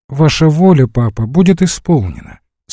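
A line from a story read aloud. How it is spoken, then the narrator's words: Calm reply. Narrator (Russian): спокойно отвечала Саша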